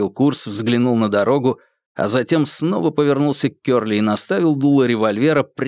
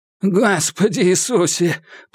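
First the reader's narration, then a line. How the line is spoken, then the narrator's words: Groan. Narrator (Russian): простонал Кёрли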